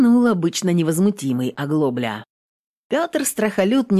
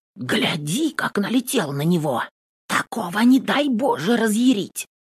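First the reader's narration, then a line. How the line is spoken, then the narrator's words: Whispering in ear. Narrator (Russian): шептала на ухо домна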